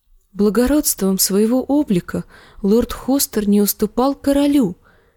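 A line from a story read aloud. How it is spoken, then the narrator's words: Quiet. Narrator (Russian): тихо промолвила Жиенна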